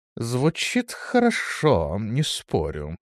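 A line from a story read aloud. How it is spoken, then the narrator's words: Thoughtful. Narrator (Russian): произнес он задумчиво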